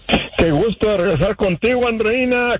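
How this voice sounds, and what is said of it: Radio announcer voice. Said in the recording (Spanish): “mi nueva voz de locutor”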